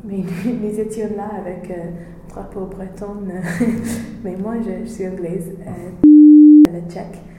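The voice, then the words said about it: French spoken with English accent. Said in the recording (French): “mon accent anglais”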